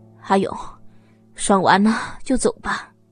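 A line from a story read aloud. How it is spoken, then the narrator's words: Panting. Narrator (Chinese): 小金一边喘息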